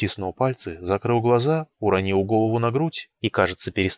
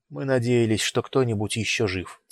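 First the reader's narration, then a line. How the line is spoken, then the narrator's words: Quiet. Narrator (Russian): тихо сказал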